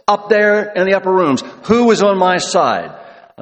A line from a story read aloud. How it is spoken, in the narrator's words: He just yells